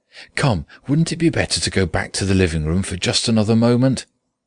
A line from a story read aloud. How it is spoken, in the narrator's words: said, although in a trembling voice and too quickly